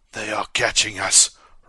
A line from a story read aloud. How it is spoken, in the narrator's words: rasped Ko